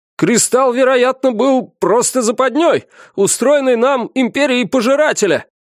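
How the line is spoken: Shouting officer. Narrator (Russian): крикнул один из штабных офицеров

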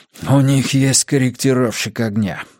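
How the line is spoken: Breathed out. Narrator (Russian): выдохнул мужчина

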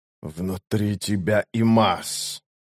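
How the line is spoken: Creaky voice. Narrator (Russian): проскрипел Рейст

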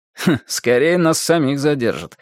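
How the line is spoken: Guest's snorting remark. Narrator (Russian): хмыкнул один из гостей

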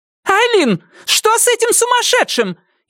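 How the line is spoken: Hysterical exclamation. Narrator (Russian): истерично воскликнула она

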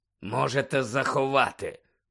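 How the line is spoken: Growled. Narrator (Ukrainian): прогарчав

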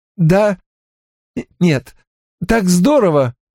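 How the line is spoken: Tense nervous laugh. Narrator (Russian): Синтия выдавила свой типично напряженный нервный смешок и сказала

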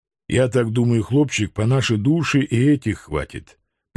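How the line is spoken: Musing, reckoning. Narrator (Russian): прикинул мой наставник

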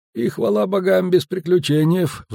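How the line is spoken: Sigh. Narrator (Russian): вздохнул шкипер

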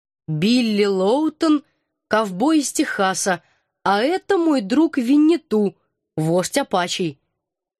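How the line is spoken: Deliberately slow speech. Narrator (Russian): Командор нарочито медленно произнес

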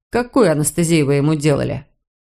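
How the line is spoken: Even, suppressed indignation. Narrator (Russian): Кэтрин с трудом поборола вспыхнувшее возмущение и ровным голосом произнесла

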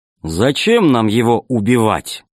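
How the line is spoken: Plain. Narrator (Russian): сказал первый капитан

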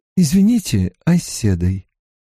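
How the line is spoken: Timid question. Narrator (Russian): робко спросила Эгвин

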